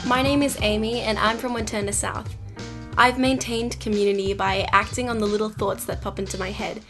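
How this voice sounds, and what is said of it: Australian accent. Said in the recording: “We're going to get some Australian accents.”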